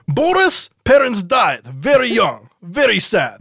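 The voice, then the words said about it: Strange vague foreign put-on accent. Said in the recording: “from indeterminate space with a very strange accent”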